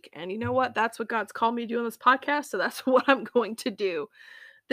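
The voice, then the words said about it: Sick, rough-sounding voice. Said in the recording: “I apologize for my voice, but I'm a bit under the weather today... I know I sound terrible”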